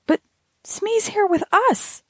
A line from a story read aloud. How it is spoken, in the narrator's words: I cried